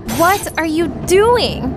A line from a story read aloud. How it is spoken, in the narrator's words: Panic sank in and I shouted